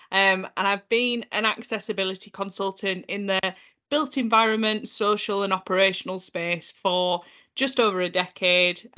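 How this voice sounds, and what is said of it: North Yorkshire English accent. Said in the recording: “You can probably tell from my accent that I'm originally from North Yorkshire”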